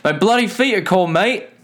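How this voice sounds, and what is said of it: Put-on Australian accent. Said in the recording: “the most adorably Australian thing ever to say... Probably what my Australian accent sounds like.”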